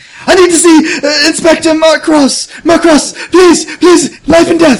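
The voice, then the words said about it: Screaming, frantic shouting. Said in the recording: “I'm screaming,”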